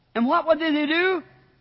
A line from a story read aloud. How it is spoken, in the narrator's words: They cried out